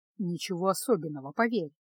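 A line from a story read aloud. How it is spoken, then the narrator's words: Gloomy, weary tone. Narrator (Russian): мрачно произнес Кайл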